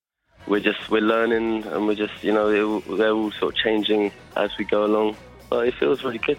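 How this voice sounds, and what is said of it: Sleepy, tired-sounding voice. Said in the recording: “You sound sleepy.”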